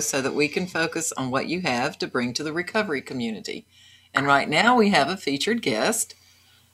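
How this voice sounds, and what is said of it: Slight Southern drawl. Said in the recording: “I love your little southern drawl there. ... North Carolina. ... Something about Southern girls, they all sound so innocent.”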